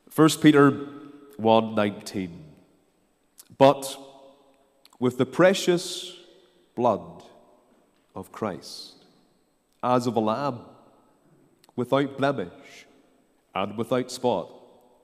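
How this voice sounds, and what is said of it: Ballymena accent, congested with cold. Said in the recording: “we might have a cold tonight ... the Ballymena accent ... a Ballymena accent with a cold”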